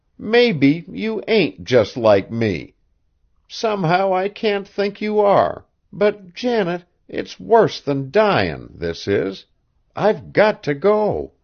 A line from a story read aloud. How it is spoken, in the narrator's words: the wretched girl groaned